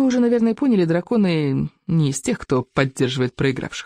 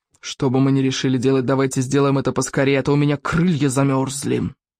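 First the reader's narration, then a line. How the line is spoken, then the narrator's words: Grumbling. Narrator (Russian): проворчал Яркоготь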